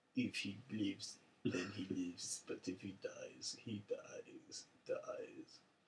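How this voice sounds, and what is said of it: Put-on Russian accent. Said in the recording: “What's your best Russian accent?”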